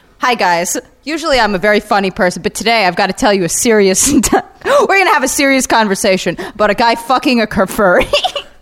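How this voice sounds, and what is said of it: Mock YouTuber commentary voice. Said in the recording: “it's always in the same YouTube voice ... now you do the YouTube voice.”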